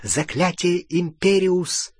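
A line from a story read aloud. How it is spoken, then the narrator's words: Whispered incantation. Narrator (Russian): впервые в жизни прошептал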